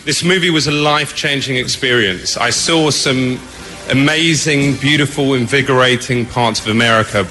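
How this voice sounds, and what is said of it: British accent. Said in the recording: “That dude right there with the British accent”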